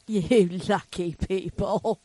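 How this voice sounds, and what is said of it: Put-on British accent. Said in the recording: “you make up a British accent.”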